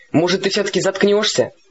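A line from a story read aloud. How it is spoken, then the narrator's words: Snapping retort. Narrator (Russian): я огрызнулся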